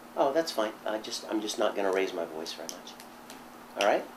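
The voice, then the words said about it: Strained, quiet, nearly lost voice. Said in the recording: “I've got no voice left, as you can probably hear ... if I'm a little more calm and quiet than normal”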